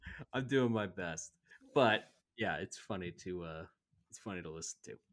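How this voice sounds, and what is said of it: Usual voice. Nothing is said of it.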